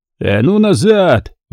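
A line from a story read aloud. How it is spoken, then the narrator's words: Full-strength roar. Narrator (Russian): взревел он, что есть мочи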